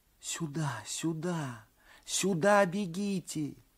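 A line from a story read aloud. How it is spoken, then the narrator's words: Whispered. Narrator (Russian): шептали губы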